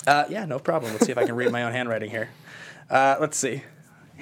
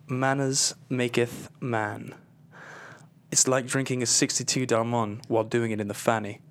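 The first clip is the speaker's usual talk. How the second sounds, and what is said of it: Put-on British accent. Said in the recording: “we're both going to do ours in a British accent.”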